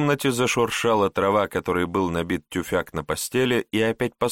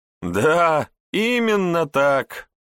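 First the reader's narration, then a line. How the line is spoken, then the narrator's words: Laughing nobles. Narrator (Russian): расхохотались дворяне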